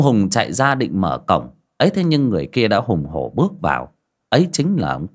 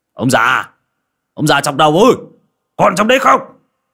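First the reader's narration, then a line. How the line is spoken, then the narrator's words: Booming thunderous shout. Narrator (Vietnamese): có tiếng quát ồ ồ như sấm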